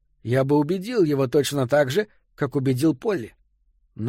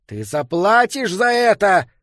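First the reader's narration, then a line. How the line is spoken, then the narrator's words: Angry shout. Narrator (Russian): выкрикнул Питеркин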